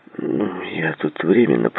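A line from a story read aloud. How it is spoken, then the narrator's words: Muttering. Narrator (Russian): пробормотал Джей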